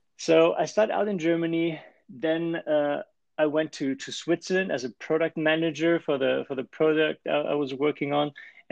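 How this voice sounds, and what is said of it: German accent. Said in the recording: “I started as an engineer in Germany. You might have guessed it from the accent already.”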